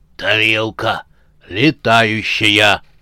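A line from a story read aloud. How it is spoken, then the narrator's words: Hoarse zombie wheeze. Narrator (Russian): просипел зомби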